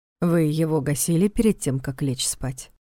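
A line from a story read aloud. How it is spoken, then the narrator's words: Calm. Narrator (Russian): спокойно уточнил Карпатский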